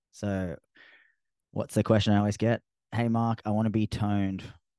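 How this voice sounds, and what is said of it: Australian accent. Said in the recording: “my Australian accent sometimes forgets letters in my pronunciation”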